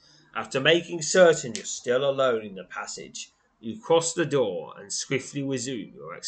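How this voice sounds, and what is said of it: Usual voice. Nothing is said of it.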